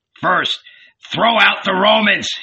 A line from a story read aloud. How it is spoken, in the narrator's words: shouted again, choking